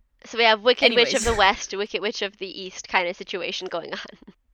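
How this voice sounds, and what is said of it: Attempted Russian accent. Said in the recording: “I don't know how to do a Russian accent. That was my best Russian accent.”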